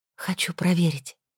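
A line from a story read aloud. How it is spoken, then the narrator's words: Whisper. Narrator (Russian): прошептала я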